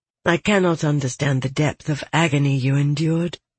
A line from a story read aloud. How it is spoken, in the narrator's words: Elenir said softly